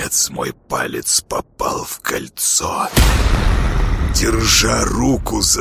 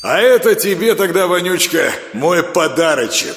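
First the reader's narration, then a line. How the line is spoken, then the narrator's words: Loud. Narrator (Russian): сказал я громко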